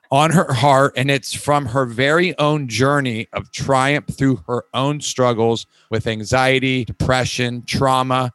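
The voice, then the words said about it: Slight Florida Southern twang. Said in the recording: “my little Florida twang”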